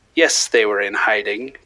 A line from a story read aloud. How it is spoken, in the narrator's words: Petiot spat sarcastically